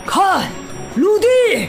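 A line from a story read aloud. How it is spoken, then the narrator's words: Loud shout. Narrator (Chinese): 尼格德姆斯叔叔大喊起来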